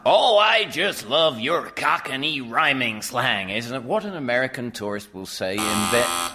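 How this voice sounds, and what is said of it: Poor American accent, sounding Welsh. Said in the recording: “Why is he speaking in a Welsh accent?... I don't think it was a very good American accent, but it was certainly it was closer to American than Welsh.”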